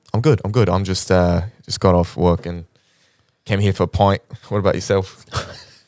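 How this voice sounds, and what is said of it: Attempted British accent. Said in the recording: “I can't do the British accent all the time ... isn't that Australian?”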